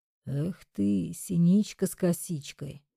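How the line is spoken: Soothing whisper. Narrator (Russian): Успокаивающе прошептал мне в затылок

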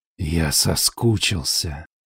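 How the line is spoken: Hoarse whisper. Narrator (Russian): шепчет он хрипло

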